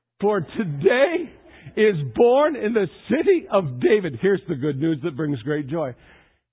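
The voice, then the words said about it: Strained, failing voice. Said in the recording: “I'm losing my voice”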